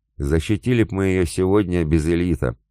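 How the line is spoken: Grim warrior. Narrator (Russian): мрачно сказал дружинник

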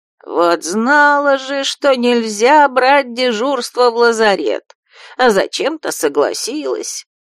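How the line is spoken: Melancholy mutter. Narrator (Russian): пробормотал с тоской голос

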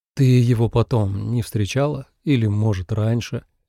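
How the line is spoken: Gentle question, young man. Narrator (Russian): мягко спросил юноша

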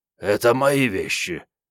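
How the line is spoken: Hoarse creature declaring. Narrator (Russian): хрипло заявило лохматое создание

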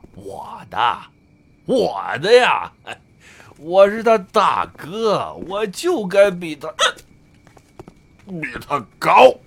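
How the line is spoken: Laughing. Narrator (Chinese): 笑道

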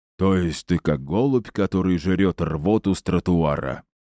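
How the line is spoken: Thoughtful low drone. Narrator (Russian): задумчиво прогудел генерал

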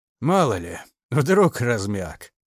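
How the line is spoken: Snorting chuckle. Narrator (Russian): он хмыкнул

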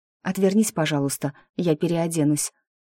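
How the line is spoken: Timid request. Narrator (Russian): робко попросила я

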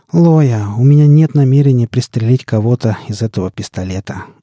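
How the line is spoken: Weary sigh. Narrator (Russian): устало вздохнул я

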